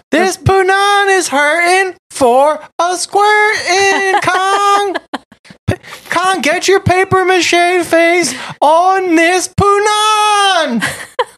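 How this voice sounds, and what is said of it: Imitates another person's voice. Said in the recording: “Her voice was so fucking... Linda Miller.”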